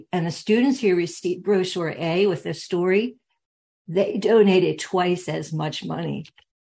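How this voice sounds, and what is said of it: Strained, hoarse voice. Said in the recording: “I'm losing my voice here.”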